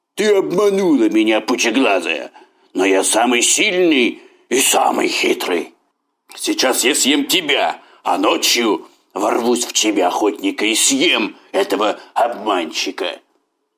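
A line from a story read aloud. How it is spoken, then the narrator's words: Tiger's roar. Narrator (Russian): Тогда тигр рявкнул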